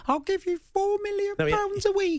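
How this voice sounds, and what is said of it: High-pitched Daniel Levy impression. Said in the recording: “I don't know if I could do an impression of Daniel Levy ... Has he got one of those like really high voices or something? ... Doesn't speak like that.”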